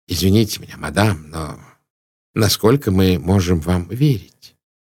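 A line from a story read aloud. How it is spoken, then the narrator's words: Very gentle. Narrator (Russian): Пуаро говорил очень мягко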